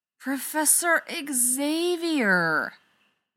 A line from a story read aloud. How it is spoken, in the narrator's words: Rodney sighs